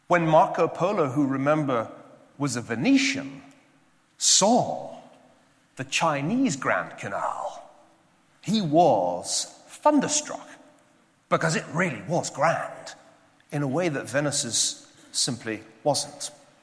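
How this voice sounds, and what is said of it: Scottish accent. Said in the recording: “my accent ... I am a Scotsman”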